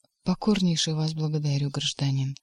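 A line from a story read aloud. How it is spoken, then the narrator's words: Sad, small man. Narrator (Russian): также грустно сказал человечек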